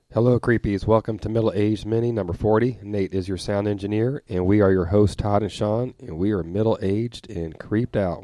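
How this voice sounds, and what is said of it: Cracking, sick-sounding voice. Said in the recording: “if my voice cracks, it's because I have a bad cold I've had since last Friday”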